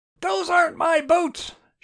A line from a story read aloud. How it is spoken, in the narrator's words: shouted Cameron